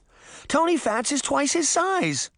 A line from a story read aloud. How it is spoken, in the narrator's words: Sabrina cried